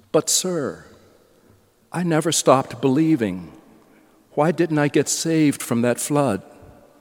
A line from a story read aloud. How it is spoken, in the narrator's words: Peter and exclaims